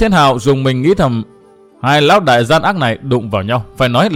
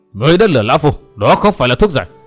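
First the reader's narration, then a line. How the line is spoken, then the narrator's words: Panicked roaring. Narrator (Vietnamese): Ngũ Diện Diêm La hoảng hốt gầm thét nói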